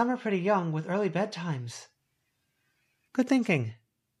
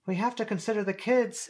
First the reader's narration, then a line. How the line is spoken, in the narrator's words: Avery called out